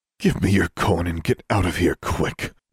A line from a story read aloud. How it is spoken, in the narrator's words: he snarled